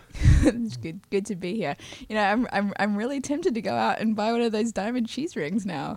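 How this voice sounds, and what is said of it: Australian accent. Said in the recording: “an Australian accent”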